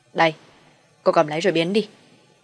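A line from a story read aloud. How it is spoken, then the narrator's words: Snapping irritably. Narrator (Vietnamese): hắn gắt với em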